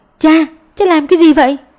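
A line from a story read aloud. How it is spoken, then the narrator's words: Urgent loud shout. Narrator (Vietnamese): Tiểu Lan vội hét lớn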